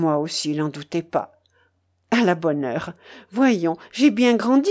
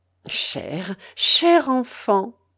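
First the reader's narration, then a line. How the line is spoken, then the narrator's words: Stammer. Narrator (French): balbutia Maxime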